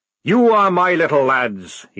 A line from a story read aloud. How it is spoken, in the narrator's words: he roared